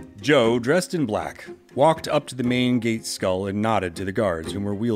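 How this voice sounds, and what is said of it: Usual voice. Nothing is said of it.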